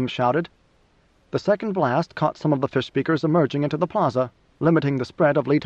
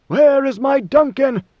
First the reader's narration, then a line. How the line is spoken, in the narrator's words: Leto bellowed